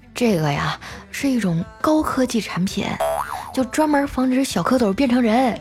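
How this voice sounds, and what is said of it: Quiet, hushed speech. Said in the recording (Chinese): “小声地”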